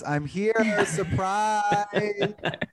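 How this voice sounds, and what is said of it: Jill Zarin impression. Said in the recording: “In my best Jill Zarin voice,”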